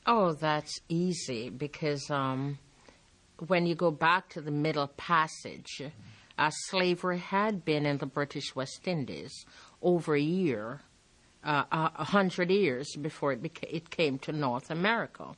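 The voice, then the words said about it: Jamaican accent. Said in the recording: “You may notice her accent. That's because she's Jamaican.”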